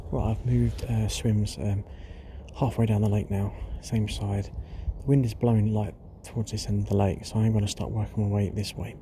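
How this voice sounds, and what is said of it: Whispering close to the mic. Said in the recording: “I'm whispering but I'm really talking into the mic”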